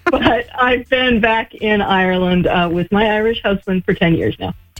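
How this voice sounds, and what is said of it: Midwestern American accent. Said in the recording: “My accent is from the middle of the United States, Salt Lake City, Utah... you've definitely retained your accent, though. You have. It's beautiful.”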